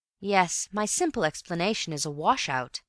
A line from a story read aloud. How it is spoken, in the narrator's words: he said